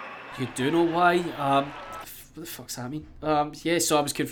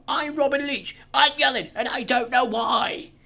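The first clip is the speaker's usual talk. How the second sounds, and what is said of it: Yelling Robin Leach impression. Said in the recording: “That's actually no bad impression, actually. I'm quite happy with that.”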